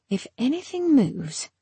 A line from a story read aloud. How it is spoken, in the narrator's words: Harrow stepped closer to Gideon and muttered